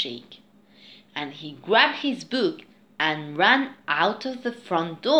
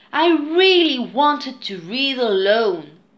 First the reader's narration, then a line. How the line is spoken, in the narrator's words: pleaded Jake